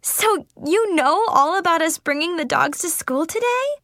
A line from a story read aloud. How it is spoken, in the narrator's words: Chloe laughed